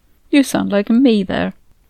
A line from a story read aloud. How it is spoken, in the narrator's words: giggled